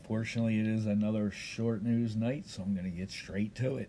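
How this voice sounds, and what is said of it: Rough, sore voice. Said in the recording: “my voice is getting a little rough and sore”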